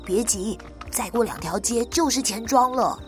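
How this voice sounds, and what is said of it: Quiet, hushed voice. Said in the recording (Chinese): “小声的回答”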